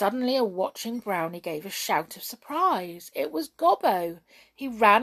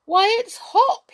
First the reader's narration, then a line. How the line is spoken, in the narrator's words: he cried in astonishment